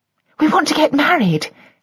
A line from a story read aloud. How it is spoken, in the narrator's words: said Joy breathlessly